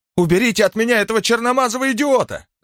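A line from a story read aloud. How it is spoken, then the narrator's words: Loud yell. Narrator (Russian): заорал литовец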